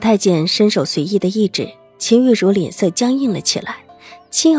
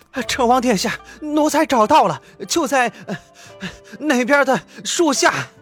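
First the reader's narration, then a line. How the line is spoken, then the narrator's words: Breathless young servant. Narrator (Chinese): 小太监气喘吁吁的跑过来禀报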